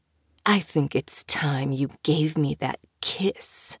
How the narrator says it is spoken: he whispered

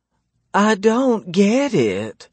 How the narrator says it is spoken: she whines

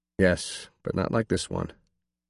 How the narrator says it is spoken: said quietly

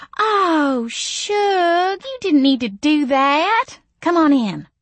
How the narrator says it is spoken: Missy cooed

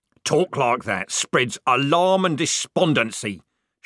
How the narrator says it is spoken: shouted Corporal Strappy

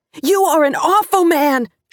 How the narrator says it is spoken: she cried

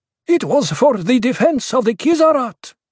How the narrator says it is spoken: Korba blurted

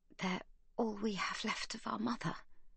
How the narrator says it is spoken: says Magda in a whisper

